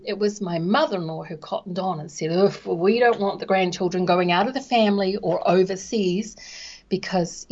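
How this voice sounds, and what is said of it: New Zealand accent. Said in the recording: “she's got this Kiwi accent.”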